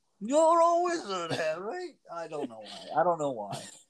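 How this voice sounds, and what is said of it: Bad British accent, Hagrid-like voice. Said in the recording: “your really bad British accent. Hagrid impression ... it doesn't even sound a little bit like him. It sounds like Hagrid's drunk, sad uncle.”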